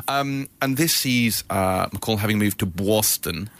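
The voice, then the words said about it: Put-on Boston accent. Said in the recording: “That's an authentic accent.”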